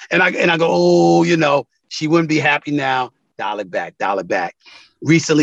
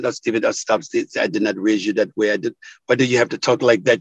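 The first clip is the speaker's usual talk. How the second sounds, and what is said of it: West Indian accent. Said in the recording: “I literally hear her with a West Indian accent.”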